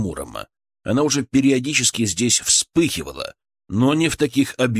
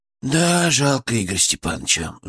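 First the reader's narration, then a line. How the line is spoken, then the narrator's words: Sighing. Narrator (Russian): вздохнул Величко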